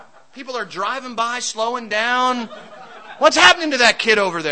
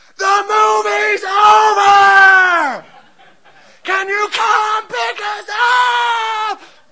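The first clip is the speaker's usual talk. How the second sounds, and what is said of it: Screaming at top of lungs. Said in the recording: “I'm screaming into this phone... screaming at the top of my lungs”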